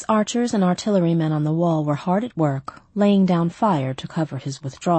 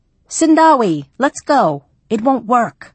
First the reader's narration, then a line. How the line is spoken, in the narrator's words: Mogaba shouted